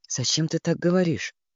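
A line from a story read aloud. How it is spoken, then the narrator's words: Quiet, suppressed tremor. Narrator (Russian): спросил он тихо, стараясь скрыть внутреннюю дрожь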